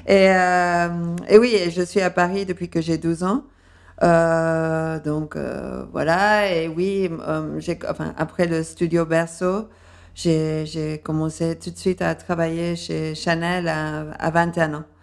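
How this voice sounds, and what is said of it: Slightly undefined accent, light English tinge. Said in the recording (French): “j'ai un accent euh, un peu indéfini, mais avec un léger euh, accent anglais aussi ... C'est très chic d'avoir un accent comme ça”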